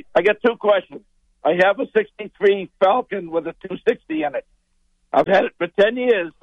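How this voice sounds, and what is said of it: Hoarse, strained voice. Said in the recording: “I got a hoarse voice. I can hardly talk.”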